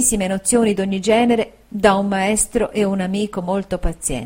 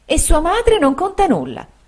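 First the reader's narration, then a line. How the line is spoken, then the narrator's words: Exclaimed. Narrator (Italian): esclamò la signora Markham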